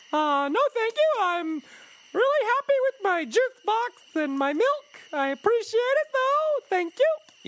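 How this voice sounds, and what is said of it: High-pitched character voice. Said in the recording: “high voice”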